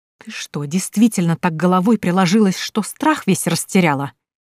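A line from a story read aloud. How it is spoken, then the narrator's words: Stepmother hissing through teeth. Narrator (Russian): процедила мачеха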